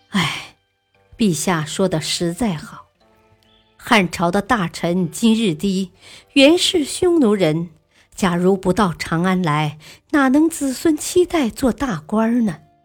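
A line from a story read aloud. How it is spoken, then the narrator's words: Understanding heartfelt sigh. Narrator (Chinese): 陆睿十分理解，感叹道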